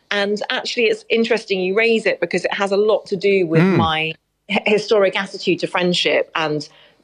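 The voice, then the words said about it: English accent. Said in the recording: “as you can hear from my accent, I was born in England”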